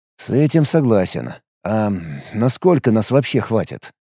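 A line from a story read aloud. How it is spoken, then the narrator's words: Calm question. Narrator (Russian): спокойно спросил Алекс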